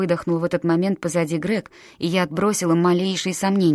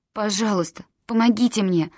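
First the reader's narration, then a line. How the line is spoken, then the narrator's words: Pleading. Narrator (Russian): взмолилась я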